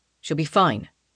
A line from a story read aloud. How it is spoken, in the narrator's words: Raphael says firmly